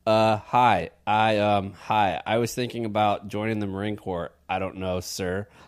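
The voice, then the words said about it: Awkward teenager voice. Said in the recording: “in my awkward teenager voice”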